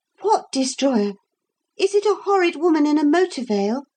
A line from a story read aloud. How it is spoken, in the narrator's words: Lucy asked eagerly